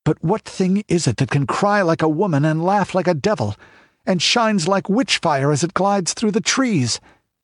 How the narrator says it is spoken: gasped Balthus

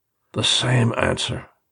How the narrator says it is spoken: he muttered more to himself than to me

